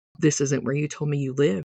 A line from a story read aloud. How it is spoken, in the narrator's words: I muttered to Chet